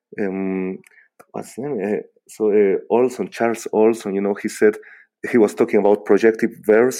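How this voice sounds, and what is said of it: Speaks English with a foreign accent. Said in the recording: “excuse for for my for my accent I hope uh, it was uh, it was understandable”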